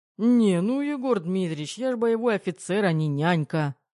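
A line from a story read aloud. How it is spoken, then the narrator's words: Grumbling mutter. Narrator (Russian): пробурчал Терех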